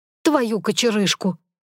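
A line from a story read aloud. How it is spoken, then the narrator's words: Cursing. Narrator (Russian): Выругалась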